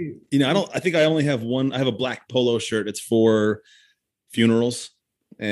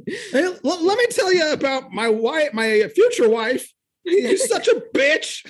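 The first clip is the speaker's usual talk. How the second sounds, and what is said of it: Imitates another person's voice. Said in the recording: “That was a really good impression.”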